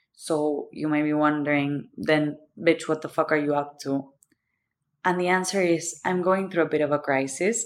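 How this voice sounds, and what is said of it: Thick Argentine accent. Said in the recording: “The thick accent is because I'm from Argentina.”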